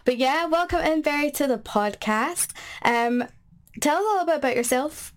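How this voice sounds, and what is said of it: Slightly nasal voice. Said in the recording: “if I sound a little nasally ... I am getting over a bit of a cold and a sore throat.”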